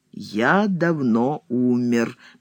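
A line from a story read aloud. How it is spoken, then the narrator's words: Slow, weighty repetition. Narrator (Russian): медленно и веско повторяет Сологуб, прерывая неистовый словесный поток Пронина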